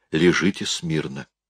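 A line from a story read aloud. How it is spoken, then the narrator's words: Quiet command. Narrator (Russian): Ева негромко приказала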